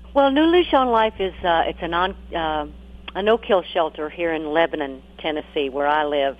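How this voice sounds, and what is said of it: Speaks with a regional accent. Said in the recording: “I just love your accent.”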